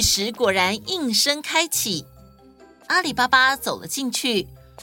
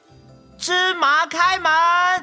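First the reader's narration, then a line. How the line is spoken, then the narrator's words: Loud shout, imitating. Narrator (Chinese): 学着野猪老大大声地喊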